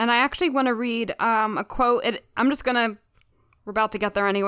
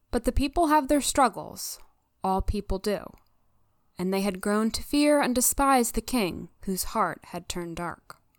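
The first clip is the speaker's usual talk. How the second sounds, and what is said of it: Imitates a TV character's voiceover. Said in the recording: “your best Jake Jagielski impression”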